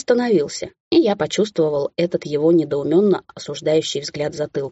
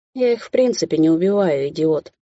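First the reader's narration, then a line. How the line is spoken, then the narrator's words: Grumbling. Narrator (Russian): заворчал я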